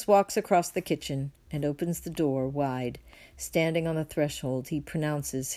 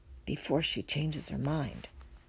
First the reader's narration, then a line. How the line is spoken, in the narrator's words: he whispers in a very low voice, just audible